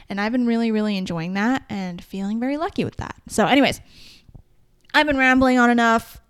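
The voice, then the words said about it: Strained voice, losing it. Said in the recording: “My voice is like, I'm losing my voice.”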